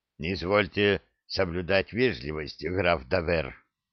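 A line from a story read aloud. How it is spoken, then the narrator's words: Hoarse reply from lame man. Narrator (Russian): хрипло ответил хромой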